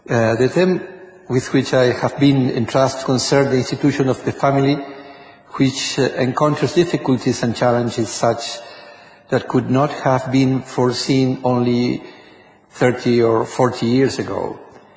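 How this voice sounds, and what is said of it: Spanish-accented English. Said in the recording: “my Spanish background is strong in my accent. I apologize for my English.”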